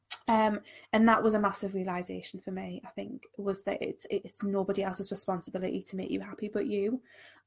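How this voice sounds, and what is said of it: Congested, nasal voice from cold. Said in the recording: “I've got a bit of a cold... I also just start to sound like I'm talking through my nose”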